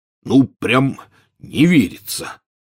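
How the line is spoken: Hoarse. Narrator (Russian): хрипло сказал Хагрид

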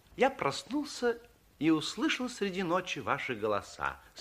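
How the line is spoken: Calm after a pause. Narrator (Russian): спокойно сказал, помолчав, Андерсен

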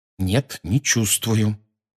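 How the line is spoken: Through gritted teeth. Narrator (Russian): сказал Гарри сквозь зубы

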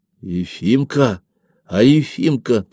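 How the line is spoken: Anxious whisper. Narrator (Russian): тревожным шептом спросил Николашка

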